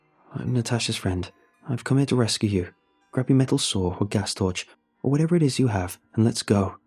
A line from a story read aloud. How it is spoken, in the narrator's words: I said quickly